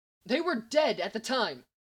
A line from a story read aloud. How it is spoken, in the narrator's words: Hal snapped back